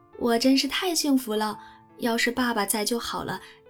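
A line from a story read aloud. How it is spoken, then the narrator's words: Contented sigh. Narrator (Chinese): 贝斯 心满意足地叹息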